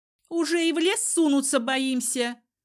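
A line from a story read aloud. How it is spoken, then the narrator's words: Shrill girl's voice. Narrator (Russian): визгливо добавила девушка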